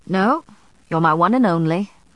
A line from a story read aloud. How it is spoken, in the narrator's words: Matthew laughed